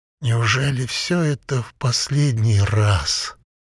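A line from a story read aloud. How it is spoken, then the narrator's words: Slow monotone reading. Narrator (Russian): Бабер читал медленно и монотонно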